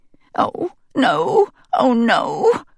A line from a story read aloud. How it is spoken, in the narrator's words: I moan aloud